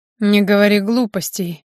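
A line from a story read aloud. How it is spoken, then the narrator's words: Unkind growl. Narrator (Russian): рыкнул Григорий, и в его голосе не ощущалось ни капли добра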